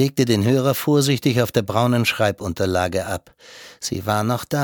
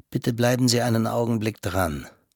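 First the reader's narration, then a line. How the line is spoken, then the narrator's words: Quiet. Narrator (German): sagte leise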